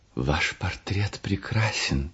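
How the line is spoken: Whisper. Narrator (Russian): прошептал он

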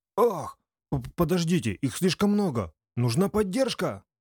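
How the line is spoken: Soldier shouting urgently. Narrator (Russian): Закричал кто-то из передовых бойцов

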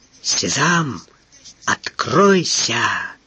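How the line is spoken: Encouraging whisper. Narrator (Russian): прошептал Эраст Петрович, чтобы подбодрить сироту

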